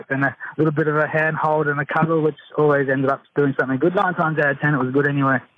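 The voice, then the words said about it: Australian accent. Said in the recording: “very sexy Australian accent”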